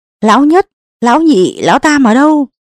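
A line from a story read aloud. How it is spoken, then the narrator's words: Powerful shout. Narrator (Vietnamese): Lão Tôn vận nội lực, hét lên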